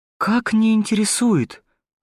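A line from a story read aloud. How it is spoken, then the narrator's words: Woman exclaiming. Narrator (Russian): воскликнула дамочка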